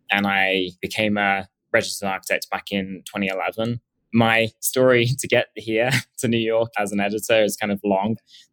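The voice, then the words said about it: English accent. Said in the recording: “as you can probably tell from my accent. I originally am from England”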